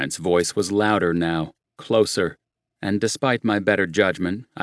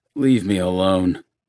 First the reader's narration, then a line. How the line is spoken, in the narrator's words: croaked